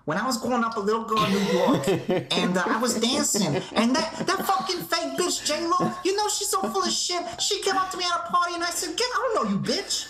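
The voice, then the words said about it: Belligerent Latina woman's voice impression. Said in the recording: “Is that your impression of a Latino woman ... just ready to fight? ... that was my Rosie Perez ... I don't think she's that belligerent.”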